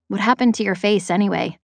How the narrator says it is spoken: asked

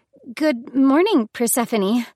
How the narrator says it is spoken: The young woman seemed surprised and stammered

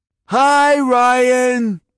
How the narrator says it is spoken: Tiggy called out

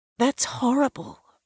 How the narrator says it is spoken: I murmur

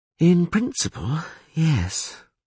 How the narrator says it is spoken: sighed the priestess

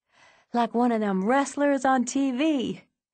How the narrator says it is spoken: Davon said, gasping for breath

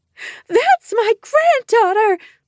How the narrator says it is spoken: Mom screeched

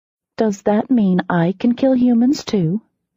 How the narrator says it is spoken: I said sweetly

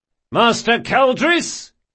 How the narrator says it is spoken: shouted Locke, unable to disguise his mirth

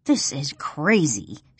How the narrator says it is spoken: she sneers

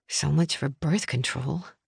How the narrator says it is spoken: I muttered

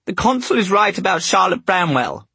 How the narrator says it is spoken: she exclaimed

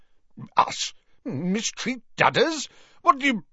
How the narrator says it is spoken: began Uncle Vernon furiously

